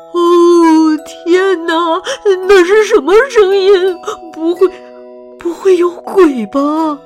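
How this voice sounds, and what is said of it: Frightened quiet muttering. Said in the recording (Chinese): “禁不住小声的念叨起来”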